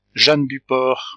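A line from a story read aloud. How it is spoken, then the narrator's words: Frightened sick murmur. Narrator (French): murmura la malade de plus en plus effrayée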